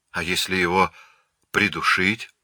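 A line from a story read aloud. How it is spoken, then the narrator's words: Quiet suggestion. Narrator (Russian): тихо предложил Грак Ганнибал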